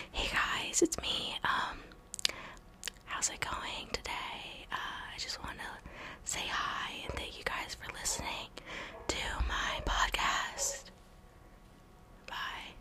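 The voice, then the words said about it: Soft ASMR-style voice. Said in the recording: “I could start making like ASMR videos with this microphone”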